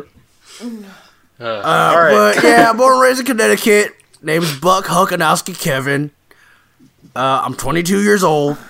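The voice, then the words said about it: Southern American accent. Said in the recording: “where'd you get that accent? ... Are you trans Southern?”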